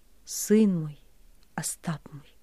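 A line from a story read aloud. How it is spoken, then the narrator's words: Quiet, dejected. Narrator (Russian): И тихо, понурив голову, говорил он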